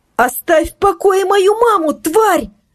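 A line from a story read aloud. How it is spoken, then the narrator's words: Shouting, voice breaking. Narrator (Russian): закричала Ксюша срывающимся голосом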